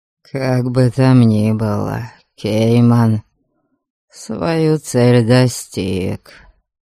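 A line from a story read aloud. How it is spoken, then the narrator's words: Dull, muffled. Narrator (Russian): глухо сказал он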